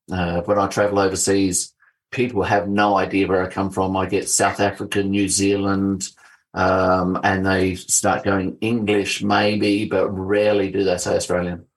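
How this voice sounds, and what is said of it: South Australian accent. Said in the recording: “you definitely do have the South Australian accent ... the South Australian accent is quite particular for Australia”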